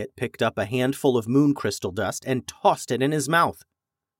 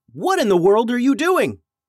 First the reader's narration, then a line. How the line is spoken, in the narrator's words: yell